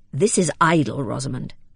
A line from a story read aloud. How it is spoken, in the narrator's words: said Lydgate angrily